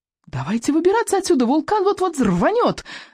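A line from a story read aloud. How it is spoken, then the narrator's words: Yell. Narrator (Russian): завопила Камикадзе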